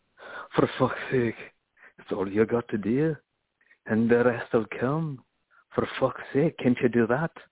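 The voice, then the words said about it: Put-on accent. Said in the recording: “I always launch into that kind of accent”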